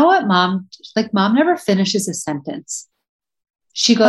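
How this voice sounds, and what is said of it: Usual voice. Nothing is said of it.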